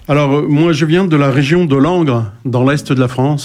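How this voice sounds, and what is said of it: Sharp, clipped non-Parisian French accent. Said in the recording (French): “il a un accent un peu pointu, pas parisien”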